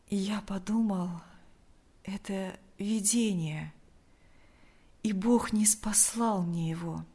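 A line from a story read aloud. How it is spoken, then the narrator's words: Weak voice. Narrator (Russian): ответил Лукьян слабым голосом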